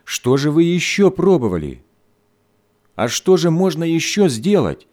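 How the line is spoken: Mother's angry exclamation. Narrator (Russian): сердито воскликнула мать

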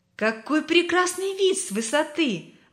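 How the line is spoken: Admiring exclamation. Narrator (Russian): воскликнула она восхищенно

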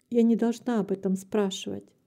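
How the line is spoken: Calm reply. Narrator (Russian): спокойно ответила мать

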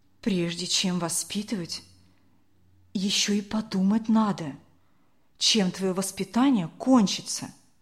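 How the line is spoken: Calm old woman. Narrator (Russian): спокойно ответила бабушка

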